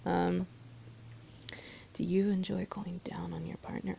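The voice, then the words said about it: Sexy, sultry reading voice. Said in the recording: “I started reading things in a sexy voice”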